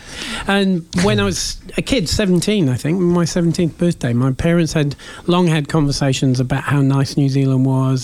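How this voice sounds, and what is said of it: Mixed English accent. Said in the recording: “I was born in England, and you can probably tell that by the accent ... I can never figure out what your accent is ... It's a mashup. It is a mashup.”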